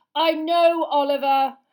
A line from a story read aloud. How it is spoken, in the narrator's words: Harry yelled